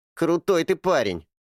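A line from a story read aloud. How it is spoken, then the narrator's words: Smirking grunt. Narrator (Russian): хмыкнул Эрни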